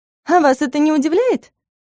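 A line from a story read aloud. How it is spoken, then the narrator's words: Old woman's coughing laugh. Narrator (Russian): Бабка кашляюще засмеялась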